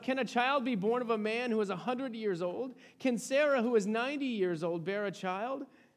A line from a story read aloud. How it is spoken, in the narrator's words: Then Abram fell on his face and laughed and said to himself